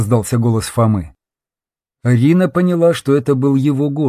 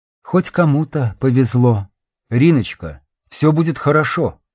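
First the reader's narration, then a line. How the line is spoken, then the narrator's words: Tender, caring voice. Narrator (Russian): произнес незнакомец тем же нежным и заботливым голосом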